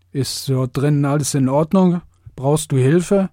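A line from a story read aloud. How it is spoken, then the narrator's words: Slurred question. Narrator (German): fragte ich lallend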